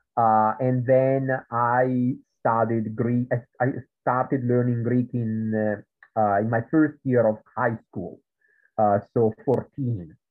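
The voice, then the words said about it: Italian accent. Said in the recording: “in Italy, which is where I come from, as you can tell from my accent”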